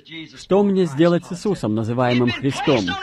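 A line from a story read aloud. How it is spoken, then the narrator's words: Plain. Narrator (Russian): сказал Пилат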